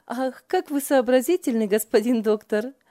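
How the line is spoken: Hearty teasing laughter. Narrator (Russian): от души смеялась Ева над братом

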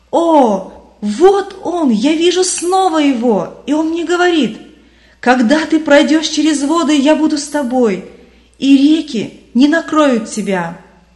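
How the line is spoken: Loud jubilant exclamation. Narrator (Russian): Вдруг христианин громким ликующим голосом воскликнул

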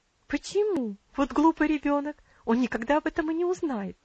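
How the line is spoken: Quick exclamation. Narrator (Russian): быстро воскликнула ее тетя

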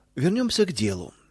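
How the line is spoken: Cold tone. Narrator (Russian): холодным тоном продолжил он

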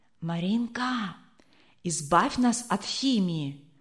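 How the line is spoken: Whisper, boy. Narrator (Russian): шепнул высокий мальчик

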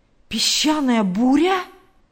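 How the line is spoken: Exclaiming. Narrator (Russian): воскликнул Билл

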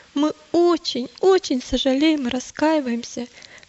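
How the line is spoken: Miserable sobbing. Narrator (Russian): всхлипнул несчастный христианин

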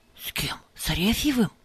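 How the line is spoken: Whispered question. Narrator (Russian): шепотом спросил Пафнутич

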